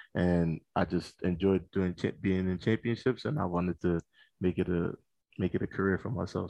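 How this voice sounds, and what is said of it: Slight East Coast American accent. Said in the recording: “people might pick up a little East Coast accent there ... you might hear a little bit of an accent ... most people say they hear an accent when I or when I start to speak”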